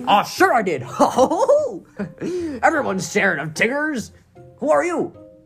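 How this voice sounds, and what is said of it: Tigger cartoon voice slipping into Goofy. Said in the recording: “I turned into Goofy in the middle of my impression.”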